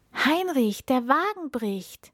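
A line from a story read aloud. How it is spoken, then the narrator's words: Called out. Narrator (German): rief der Prinz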